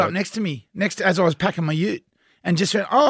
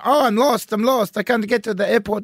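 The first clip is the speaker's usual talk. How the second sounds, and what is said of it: Imitated Italian-sounding accent. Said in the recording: “This Italian bloke ... I don't know what the accent is ... scam voice”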